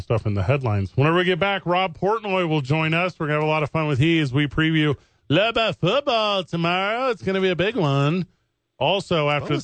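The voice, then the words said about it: Bad 1970s sportscaster impression. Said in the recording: “what was that voice you're doing? ... That was 70s ABC sportscaster. ... Like really bad Howard Cosell?”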